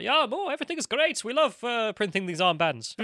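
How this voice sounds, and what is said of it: Failed attempt at Swedish accent. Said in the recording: “That was not a Swedish accent.”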